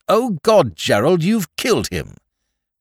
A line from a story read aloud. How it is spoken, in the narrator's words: She exclaimed at once